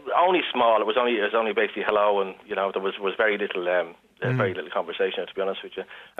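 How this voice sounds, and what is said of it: Dublin Irish accent. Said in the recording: “that's not a Kildare accent, really. ... You're a Dub, are you, originally?”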